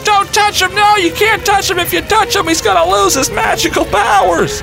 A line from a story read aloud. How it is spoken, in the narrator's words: my nephew starts screaming at me